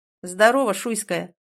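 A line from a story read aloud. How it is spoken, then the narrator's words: Mocking. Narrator (Russian): насмешливо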